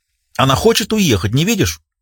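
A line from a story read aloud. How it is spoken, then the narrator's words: Snapping. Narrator (Russian): огрызнулась Кэти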